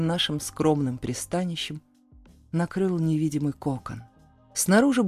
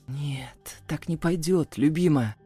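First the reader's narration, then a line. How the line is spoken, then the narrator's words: Hoarse rasp. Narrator (Russian): прохрипел я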